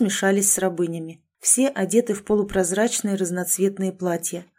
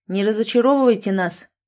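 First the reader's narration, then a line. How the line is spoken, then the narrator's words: Sharp shout. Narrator (Russian): прикрикнул Шон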